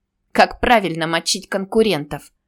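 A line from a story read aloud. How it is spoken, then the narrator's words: Pleased laughter. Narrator (Russian): Нина довольно смеялась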